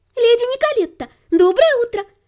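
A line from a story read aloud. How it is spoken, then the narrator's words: Cheerful. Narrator (Russian): радостно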